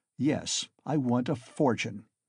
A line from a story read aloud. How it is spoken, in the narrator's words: he answered firmly, after a brief pause